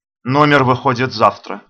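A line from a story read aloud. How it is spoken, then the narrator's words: Dry reply. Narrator (Russian): сухо отвечаю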